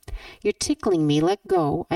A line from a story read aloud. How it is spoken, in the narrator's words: I begged Moira as I began to giggle